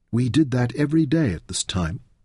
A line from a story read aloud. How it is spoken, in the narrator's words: Sidudu whispered